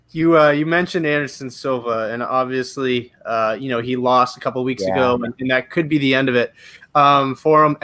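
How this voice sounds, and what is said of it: Canadian accent. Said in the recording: “Obviously, I'm Canadian. If you can't tell from the accent, I'm Canadian.”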